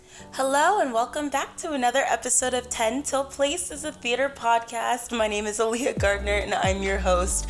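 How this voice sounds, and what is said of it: Hoarse, fading voice. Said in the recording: “apologize for my voice... I am losing my voice.”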